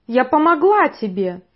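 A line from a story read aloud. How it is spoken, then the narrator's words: Shout. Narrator (Russian): выкрикнула она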